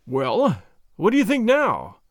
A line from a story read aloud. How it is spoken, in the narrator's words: I gasped